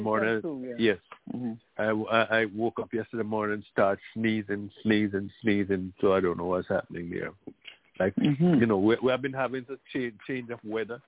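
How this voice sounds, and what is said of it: Slightly hoarse voice. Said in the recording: “you may recognize that I'm a bit hoarse.”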